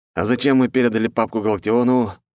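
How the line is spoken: Sighing, trying again. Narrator (Russian): Вздохнув, еще раз попытался Румянцев-младший

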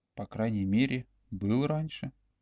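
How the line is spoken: Whispered reply. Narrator (Russian): также шепотом ответил Олег

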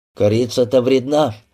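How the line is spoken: Grumbled. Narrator (Russian): буркнул Петельников

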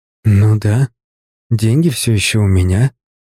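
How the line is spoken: Breathy exhale. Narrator (Russian): выдохнула она

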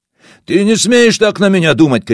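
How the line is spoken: Shouting. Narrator (Russian): кричал Васо

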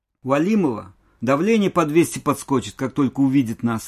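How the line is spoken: Joyful announcement. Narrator (Russian): радостно возвещал Борис

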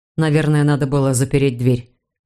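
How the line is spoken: Grumbled. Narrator (Russian): пробурчал Эд

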